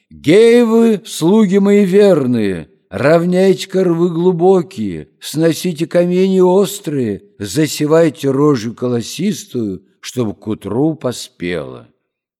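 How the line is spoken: Loud shout. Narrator (Russian): Василиса Премудрая крикнула громким голосом

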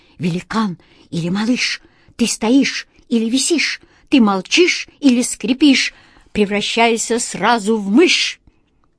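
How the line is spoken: Feverish whisper, cat. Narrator (Russian): Кот Васька лихорадочно зашептал

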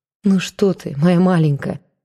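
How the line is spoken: Tender, as to child. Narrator (Russian): ласково, как ребенку, сказал Матвей

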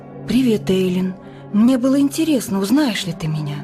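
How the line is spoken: Calm smiling reply. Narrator (Russian): Спокойно улыбнулась и ответила

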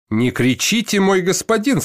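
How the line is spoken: Calm shoemaker. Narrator (Russian): спокойно сказал ему сапожник

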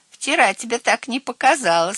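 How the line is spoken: Giggling. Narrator (Russian): хихикнул Цвотель

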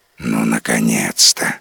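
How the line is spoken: Relieved sigh, dragon. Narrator (Russian): облегченно вздохнул дракон

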